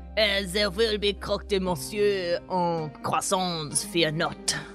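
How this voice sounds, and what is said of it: Impersonates a French nobleman character. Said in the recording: “is he not French ... that impersonation”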